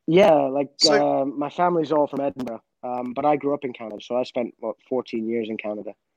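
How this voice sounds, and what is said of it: Mixed Canadian and Scottish accent. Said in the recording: “there's a Canadian twang in your voice ... My accent is well and truly all over.”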